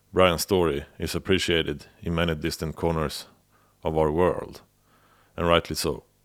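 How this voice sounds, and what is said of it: Non-native English accent. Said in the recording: “my accent-broken monologues”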